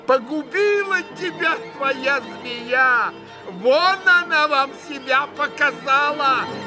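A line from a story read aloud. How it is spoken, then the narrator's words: Shouting, shaking with rage. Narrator (Russian): прокричала она, сотрясаясь от злобы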